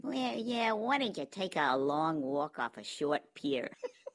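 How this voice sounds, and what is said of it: Whiny, cartoonish imitated character voice. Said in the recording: “whiny... Whiny and a bit cartoonish... That was a remarkable impersonation.”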